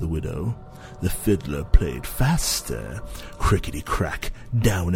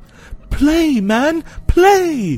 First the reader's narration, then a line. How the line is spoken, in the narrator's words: cried the widow